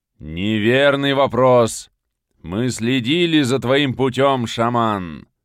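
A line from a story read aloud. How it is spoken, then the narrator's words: Growling spirits. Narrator (Russian): В очередной раз прорычали духи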